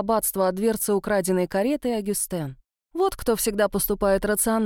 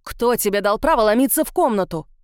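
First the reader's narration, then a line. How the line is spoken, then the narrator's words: Yelling. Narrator (Russian): орал на мать Этьен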